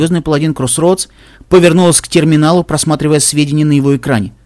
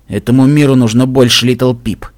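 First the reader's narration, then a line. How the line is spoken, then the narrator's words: Grumbling mutter. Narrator (Russian): буркнул Стилхуфс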